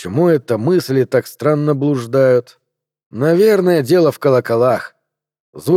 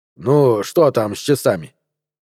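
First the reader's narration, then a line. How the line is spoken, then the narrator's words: Irritated, curt. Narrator (Russian): бросил он раздраженно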